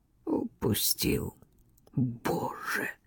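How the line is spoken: Despairing moan. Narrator (Russian): С упавшим сердцем простонала Флавия

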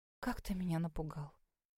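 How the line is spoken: Relieved exhale. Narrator (Russian): Выдохнула я с облегчением

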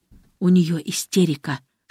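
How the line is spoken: Whisper. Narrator (Russian): шепнул ему Александр

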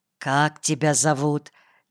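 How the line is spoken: Quiet question. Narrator (Russian): тихо спросил отец Вениамин

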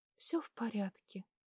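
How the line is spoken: Quiet. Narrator (Russian): тихо сказала

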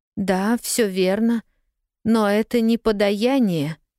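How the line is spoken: Trembling objection. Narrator (Russian): все тем же дрожащим голосом возразила мамусик

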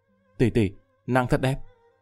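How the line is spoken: Dazed whisper. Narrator (Vietnamese): Lâm Vân Vinh ngẩn người, thì thào lẩm bẩm

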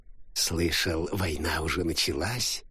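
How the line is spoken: Quiet question. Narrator (Russian): тихо спросил крокодил

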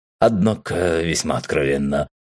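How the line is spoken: Snorting chuckle. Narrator (Russian): хмыкнул Рэм

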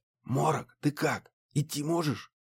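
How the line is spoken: Whispering. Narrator (Russian): прошептал

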